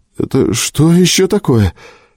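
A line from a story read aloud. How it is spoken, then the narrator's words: Frightened. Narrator (Russian): испуганно спросил Боджинг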